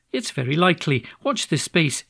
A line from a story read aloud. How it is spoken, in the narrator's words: she said